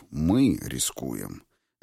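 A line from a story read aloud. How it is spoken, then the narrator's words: Gentle correction. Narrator (Russian): мягко поправил Публий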